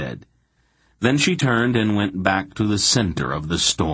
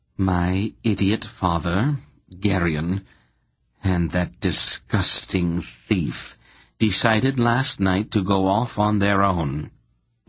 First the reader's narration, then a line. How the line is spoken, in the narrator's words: Polgara replied in an icy voice, made even more terrible by the superhuman control that held it in